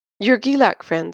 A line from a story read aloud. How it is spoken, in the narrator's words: said Josh